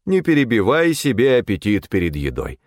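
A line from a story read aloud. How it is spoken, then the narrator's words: Stern metallic voice. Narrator (Russian): отозвался я суровым металлическим голосом отца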